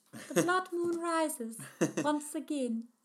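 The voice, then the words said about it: Impression of Zelda's voice. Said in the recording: “I could hear Zelda's voice on the wind ... That's my Zelda impression.”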